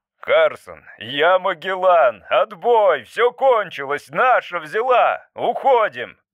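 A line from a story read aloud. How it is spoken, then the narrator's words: Shouting. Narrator (Russian): кричал он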